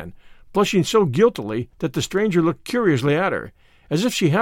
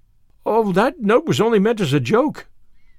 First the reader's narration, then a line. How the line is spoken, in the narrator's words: gasped Anne